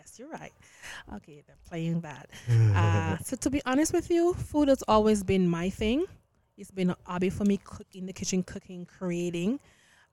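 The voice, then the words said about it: Jamaican accent. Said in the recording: “I am Jamaican by roots. ... I could tell by the wonderful accent. ... I cannot hide it.”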